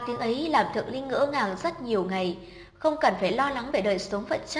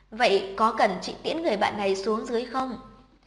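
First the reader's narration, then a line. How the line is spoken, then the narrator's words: Smiling, quiet. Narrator (Vietnamese): Cô mỉm cười nói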